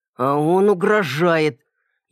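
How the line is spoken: Hissing. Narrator (Russian): Я снова перешел на шипение

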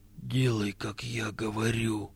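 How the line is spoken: Whisper. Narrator (Russian): прошептал он

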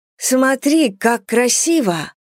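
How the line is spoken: Exclaiming. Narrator (Russian): воскликнула Эллинор

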